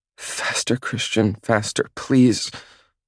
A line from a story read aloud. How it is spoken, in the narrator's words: she pleads